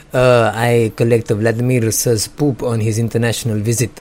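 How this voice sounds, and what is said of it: Mock Russian accent. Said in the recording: “That's my Russian accent.”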